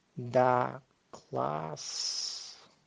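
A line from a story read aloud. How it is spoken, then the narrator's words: Purr. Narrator (Russian): мурлыкнул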